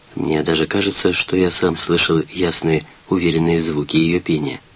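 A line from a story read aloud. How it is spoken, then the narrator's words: Soft, gentle. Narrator (Russian): материня сказала мягко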